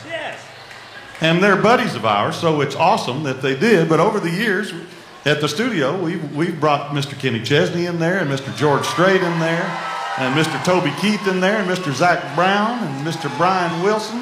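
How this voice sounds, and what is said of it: Mississippi accent. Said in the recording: “I have this Mississippi accent”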